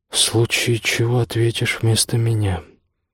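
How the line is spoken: Muttered. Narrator (Russian): пробормотал Ашат

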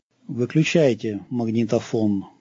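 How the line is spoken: Flat colorless voice. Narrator (Russian): бесцветным голосом проговорил он

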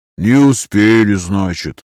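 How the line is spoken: Sad remark. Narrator (Russian): грустно заметил Эраст

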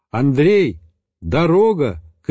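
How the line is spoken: Shouted upward. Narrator (Russian): крикнул вверх

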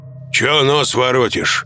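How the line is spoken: Angry question. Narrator (Russian): зло спросил оборотень справа

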